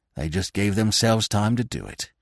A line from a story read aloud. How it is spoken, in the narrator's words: muttered Falmouth